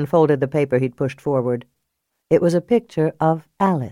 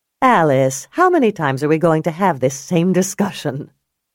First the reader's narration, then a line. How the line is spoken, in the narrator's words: Julia couldn't help laughing at her own comment